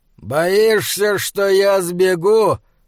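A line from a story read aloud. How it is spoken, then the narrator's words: Thundering voice. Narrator (Russian): прогремел Ксоксарле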